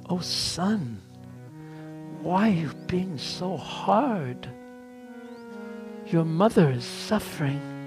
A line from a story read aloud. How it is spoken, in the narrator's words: Rohini, with tears in her eyes, said so softly